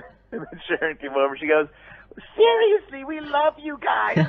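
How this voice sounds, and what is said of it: Usual voice. Nothing is said of it.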